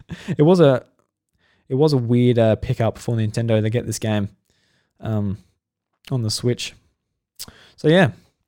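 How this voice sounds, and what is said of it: Voice going, strained. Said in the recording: “I'm losing my voice a bit here”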